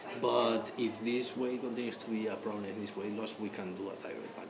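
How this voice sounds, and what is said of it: Irish accent. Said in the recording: “It's my Irish accent.”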